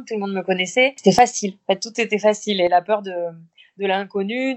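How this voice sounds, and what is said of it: Light Béarnais French accent. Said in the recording (French): “un petit accent béarnais qui est léger quand même, mais on, l'entend un tout petit peu”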